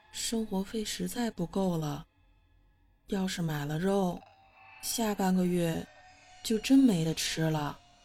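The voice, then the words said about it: Quiet, soft-spoken voice. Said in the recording (Chinese): “小声地说”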